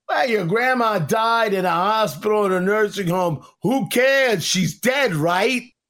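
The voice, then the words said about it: Imitates another person's voice. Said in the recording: “my Andrew Cuomo impression”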